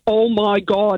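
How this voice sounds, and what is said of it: Thick Derry Northern Irish accent. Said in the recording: “in a really thick Derry accent”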